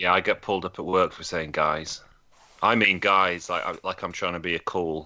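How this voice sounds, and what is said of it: Usual voice. Nothing is said of it.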